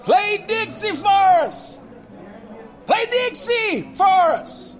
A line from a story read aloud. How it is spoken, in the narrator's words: some white boys from a fraternity yelled forward to the stage and began to shout